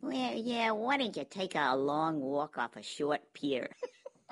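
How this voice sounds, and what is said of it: Whiny, cartoonish female character voice. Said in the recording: “whiny ... Whiny and a bit cartoonish ... that was a remarkable impersonation”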